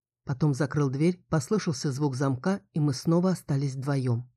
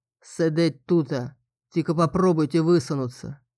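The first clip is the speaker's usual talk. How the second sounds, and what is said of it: Rustic regional dialect voice. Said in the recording (Russian): “Ну, у него и говорок”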